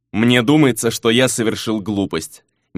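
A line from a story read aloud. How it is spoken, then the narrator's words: Displeased mutter. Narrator (Russian): недовольно пробормотал Фернан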